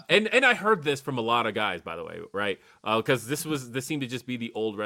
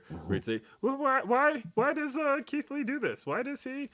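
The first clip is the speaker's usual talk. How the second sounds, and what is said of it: Imitates another person's voice. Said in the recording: “my Disco Inferno impersonation”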